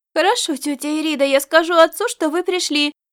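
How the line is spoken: Boy exclaiming. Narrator (Russian): воскликнул мальчик

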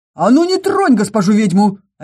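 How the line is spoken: Angry bark. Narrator (Russian): рявкнул Орий, плотник

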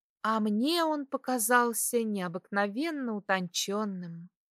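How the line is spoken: Dreamy sigh. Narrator (Russian): мечтательно вздохнула она

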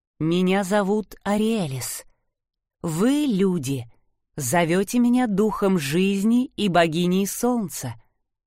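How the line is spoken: Melodious voice. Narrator (Russian): ответила она мелодичным голосом

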